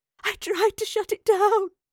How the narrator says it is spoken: the older professor sobbed

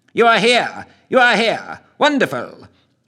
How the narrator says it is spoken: he greeted them

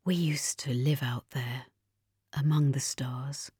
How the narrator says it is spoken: he whispered

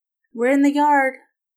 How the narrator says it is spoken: she called back nervously

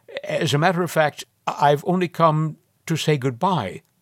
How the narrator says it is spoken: Reggie gasped, stammered out

